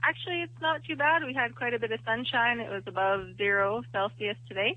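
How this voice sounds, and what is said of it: Canadian accent. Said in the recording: “a Canadian accent”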